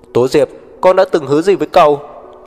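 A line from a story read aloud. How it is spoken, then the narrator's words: Shouting. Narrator (Vietnamese): Tố Đồng ... hét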